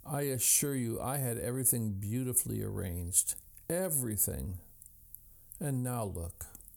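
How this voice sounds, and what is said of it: Trembling voice. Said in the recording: “in a trembling voice,”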